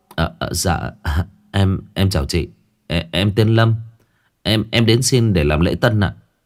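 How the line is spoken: Startled young man stammering. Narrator (Vietnamese): Người thanh niên bừng tỉnh, lắp bắp

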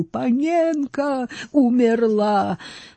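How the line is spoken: Howling. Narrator (Russian): он взвыл

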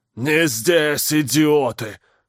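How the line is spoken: Roaring. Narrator (Russian): проревел Кварл

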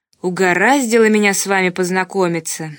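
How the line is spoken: Grumbling. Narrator (Russian): заворчал Ковалев

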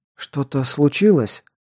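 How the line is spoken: Weak, worried question. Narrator (Russian): Слабым и одновременно обеспокоенным голосом спросила Илонка

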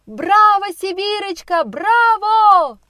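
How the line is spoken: Crowd shouting. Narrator (Russian): кричали сидящие в ложах, в партере и на задних скамьях на самом верху

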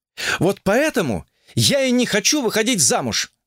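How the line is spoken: Loud declaration, woman. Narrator (Russian): громко заявила блондинка

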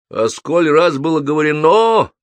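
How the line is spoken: Furious yelling. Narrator (Russian): вне себя орал Егор

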